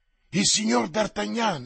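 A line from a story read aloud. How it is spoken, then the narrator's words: Exclaimed. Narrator (Italian): esclamò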